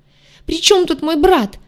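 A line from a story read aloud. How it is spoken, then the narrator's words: Shrill tearful squeal. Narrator (Russian): взвизгнула девица, и слезы досады брызнули из глаз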